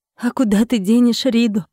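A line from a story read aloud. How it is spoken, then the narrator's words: Sobbing, longing question. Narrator (Russian): спросила с тоской, всхлипнув еще раз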